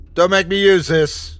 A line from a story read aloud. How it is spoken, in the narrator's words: I yelled at it again